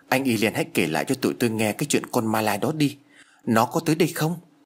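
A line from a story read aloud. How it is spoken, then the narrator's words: Trembling fearful pleading. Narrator (Vietnamese): Anh chàng nhát gan nhất vừa run rẩy vừa van lơn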